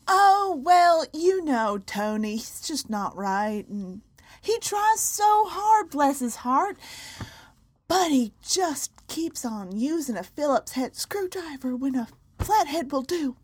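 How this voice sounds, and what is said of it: Put-on Southern US accent. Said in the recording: “those of you who might be Southern that were insulted by that accent”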